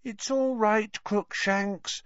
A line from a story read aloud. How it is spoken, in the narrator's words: Hermione cooed through the wickerwork